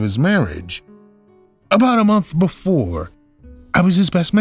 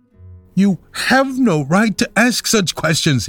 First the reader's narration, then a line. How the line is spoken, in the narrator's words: he cried